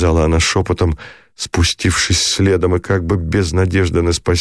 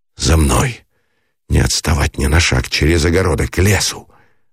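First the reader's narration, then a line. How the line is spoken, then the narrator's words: Irritated urgent command. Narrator (Russian): выговорил он, раздраженный ее шепотом, ее плачем без слез, в котором было обреченное бессилие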